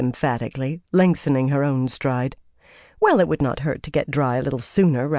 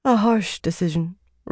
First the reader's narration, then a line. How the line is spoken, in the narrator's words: said sadly